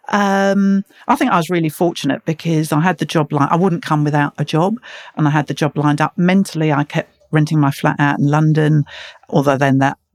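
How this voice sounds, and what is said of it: Slightly softened London accent. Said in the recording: “you haven't lost your accent ... Still sound very London. ... I still sound London, don't I? 26 years later. ... Softened a bit, I think.”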